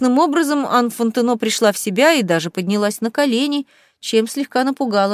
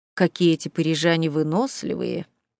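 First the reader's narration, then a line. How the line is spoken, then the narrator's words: Muttered. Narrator (Russian): пробормотал поляк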